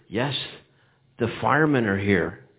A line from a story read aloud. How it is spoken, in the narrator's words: Jimmy said, in a whisper